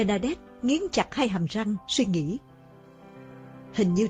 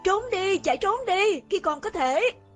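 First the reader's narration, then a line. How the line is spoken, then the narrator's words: Woman crying out amid noise. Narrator (Vietnamese): Từ trong những tiếng ồn ào gầm thét ấy, cô nghe như có giọng đàn bà kêu la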